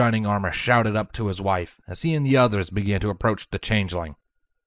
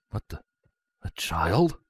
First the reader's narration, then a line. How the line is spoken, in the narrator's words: Broadsword muttered